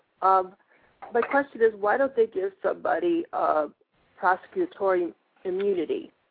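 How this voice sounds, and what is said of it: Congested voice from a cold. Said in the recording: “I'm sorry, I have a cold.”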